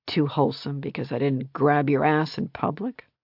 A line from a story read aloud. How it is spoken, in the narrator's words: She laughed, breathy and low